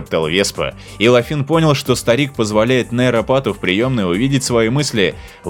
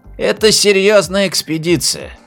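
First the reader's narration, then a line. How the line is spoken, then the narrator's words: Heavy sigh. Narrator (Russian): тяжело вздохнул Веспа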